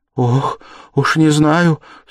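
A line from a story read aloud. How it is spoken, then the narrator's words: Near-despairing cry. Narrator (Russian): вскрикнула Соня почти в отчаянии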